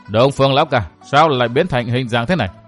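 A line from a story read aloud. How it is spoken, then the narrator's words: Suppressed anger. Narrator (Vietnamese): Nam Cung Duy Đạo cố ghiềm cơn tức giận, nói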